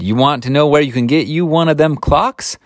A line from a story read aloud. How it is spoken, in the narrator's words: she asked in a loud voice